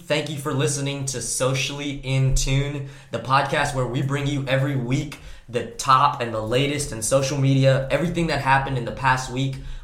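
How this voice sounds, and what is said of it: Raspy voice from a cold. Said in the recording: “My voice is kind of raspy right now because I'm coming over a cold.”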